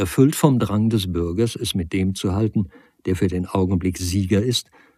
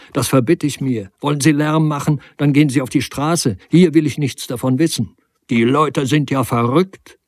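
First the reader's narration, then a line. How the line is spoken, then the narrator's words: Calling out. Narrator (German): rief er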